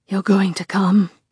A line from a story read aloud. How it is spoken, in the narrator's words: he pants